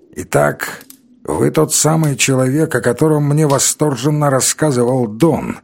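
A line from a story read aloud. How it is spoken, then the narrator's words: Creaky voice. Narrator (Russian): сказал он скрипучим голосом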